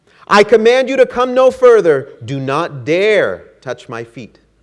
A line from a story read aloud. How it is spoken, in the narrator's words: cried Canute